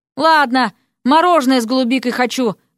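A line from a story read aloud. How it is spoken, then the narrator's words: Shouting after someone leaving. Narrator (Russian): крикнула она вслед сбежавшему за дверь Эрику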